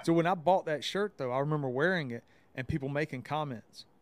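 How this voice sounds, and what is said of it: Southern US accent. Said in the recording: “I can have a Southern accent”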